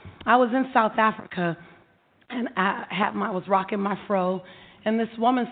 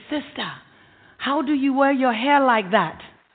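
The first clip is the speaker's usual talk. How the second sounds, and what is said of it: Put-on African accent. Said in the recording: “That's my African accent.”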